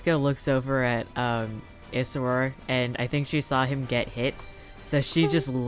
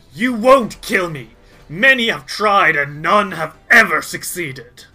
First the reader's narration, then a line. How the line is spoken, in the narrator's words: he continues to snarl and says